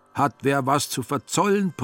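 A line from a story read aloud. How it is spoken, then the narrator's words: Horrified roar. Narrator (German): brüllte er entsetzt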